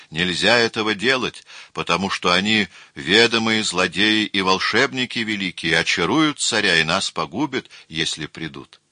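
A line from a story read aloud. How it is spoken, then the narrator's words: Group wailing yell. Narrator (Russian): ласкатели вместе с царем завопили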